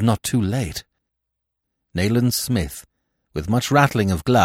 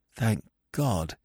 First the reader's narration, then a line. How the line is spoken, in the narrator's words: I said shakily